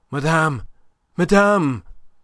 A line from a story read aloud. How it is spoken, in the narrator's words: he panted out of breath